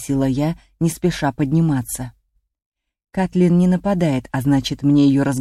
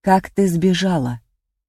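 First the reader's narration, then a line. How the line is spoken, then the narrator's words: Plain. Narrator (Russian): спросила я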